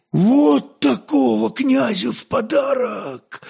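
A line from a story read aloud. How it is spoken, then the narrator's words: Hoarse with excitement. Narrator (Russian): хриплым от волнения голосом вымолвил горецвет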